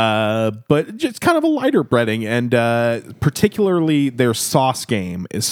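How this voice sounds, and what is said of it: Usual voice. Nothing is said of it.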